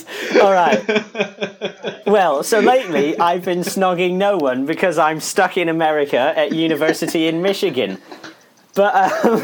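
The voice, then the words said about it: British accent. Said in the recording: “The fact that you're in Michigan, and you have a British accent.”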